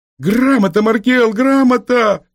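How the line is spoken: Yelling from behind. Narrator (Russian): вопил сзади Дмитрий

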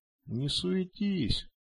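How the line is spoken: Calm. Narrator (Russian): спокойно сказал он

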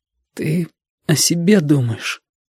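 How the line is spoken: Tearful. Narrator (Russian): Уже сквозь слезы сказал Витька

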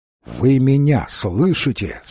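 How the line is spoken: Plain. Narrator (Russian): спросил он

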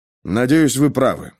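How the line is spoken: Mumbling. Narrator (Russian): пробормотал Пейнтер

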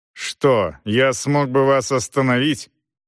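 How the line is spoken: Angry question. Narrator (Russian): сердито спросила Лар

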